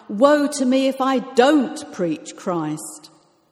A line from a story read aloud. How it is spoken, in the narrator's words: It was so important for Paul to preach Christ that he cried out